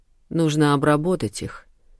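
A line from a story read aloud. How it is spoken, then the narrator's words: Hushed speech. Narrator (Russian): приглушенно произнес Ахлф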